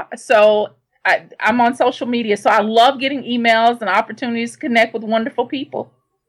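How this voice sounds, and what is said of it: Noticeable accent. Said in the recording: “I'm sure our listeners will absolutely love your accent just as much as I do.”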